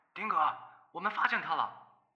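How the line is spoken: Anxious shout. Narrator (Chinese): 有个焦虑的声音喊道

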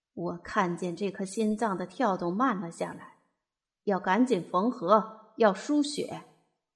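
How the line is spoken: Cold old doctor. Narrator (Chinese): 老神仙大夫 只冷冷地说

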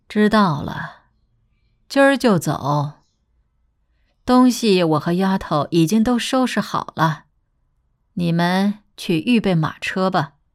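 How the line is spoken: Flat, indifferent. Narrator (Chinese): 周太夫人淡淡道

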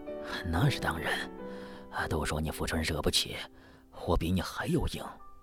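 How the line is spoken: Quiet. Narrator (Chinese): 老杨轻声对福春说

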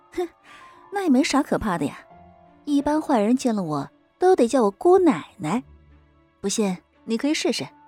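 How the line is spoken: Laughing. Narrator (Chinese): 我也笑了

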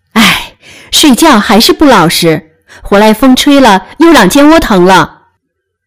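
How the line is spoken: Sighing. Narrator (Chinese): 宝玉见了，叹道

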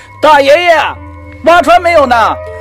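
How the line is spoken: Impatient shouting. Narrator (Chinese): 老三等得不耐烦起来，就朝着洞里大叫

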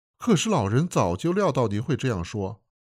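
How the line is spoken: Smiling. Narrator (Chinese): 洛桑笑了说

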